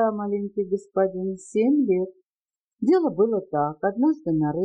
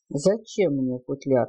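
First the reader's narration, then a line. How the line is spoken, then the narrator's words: Displeased voice. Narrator (Russian): отозвался Яков недовольным голосом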